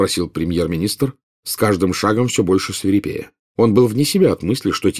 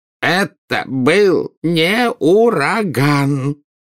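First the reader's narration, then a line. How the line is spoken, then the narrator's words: Unhappy voice. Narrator (Russian): проговорил Фадж несчастным голосом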